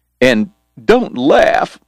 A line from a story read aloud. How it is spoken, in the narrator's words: Morgan pleaded